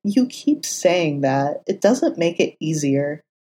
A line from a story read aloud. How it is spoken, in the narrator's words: Foggy scoffed and muttered